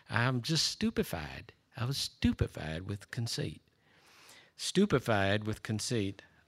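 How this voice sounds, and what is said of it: Imitated Southern US accent. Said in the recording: “say it as if you're from South Carolina ... My wife can do that a lot better than I. She's much better at that Southern accent.”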